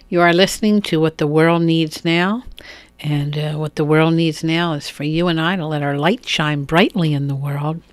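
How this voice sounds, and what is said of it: Weak voice, slightly rough throat. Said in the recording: “my voice is a little weak at times because I've had this cough and my throat could use a”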